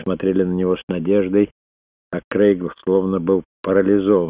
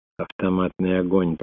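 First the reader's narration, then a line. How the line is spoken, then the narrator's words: Whispered. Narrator (Russian): прошептал Крейг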